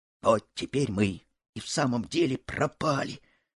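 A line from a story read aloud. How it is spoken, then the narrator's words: Whisper. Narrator (Russian): шепнул Буртик товарищу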